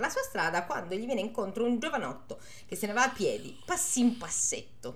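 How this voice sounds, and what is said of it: Usual voice. Nothing is said of it.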